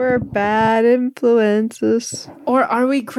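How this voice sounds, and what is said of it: Usual voice. Nothing is said of it.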